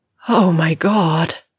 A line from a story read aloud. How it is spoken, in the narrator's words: she groans